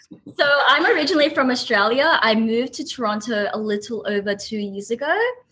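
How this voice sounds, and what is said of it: Strong Australian accent. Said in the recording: “where are you from? Australia? ... That's a very strong accent.”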